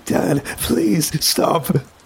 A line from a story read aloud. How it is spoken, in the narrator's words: I plead